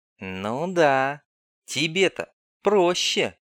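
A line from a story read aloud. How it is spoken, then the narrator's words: Envious drawl. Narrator (Russian): завистливо протянула девица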